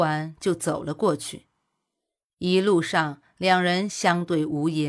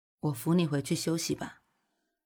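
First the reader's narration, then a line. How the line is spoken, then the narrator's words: Sighing. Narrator (Chinese): 叹了口气，古欣欣开口道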